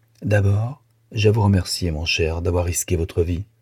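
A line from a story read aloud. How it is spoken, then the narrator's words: Grave tone. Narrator (French): Et d'un ton grave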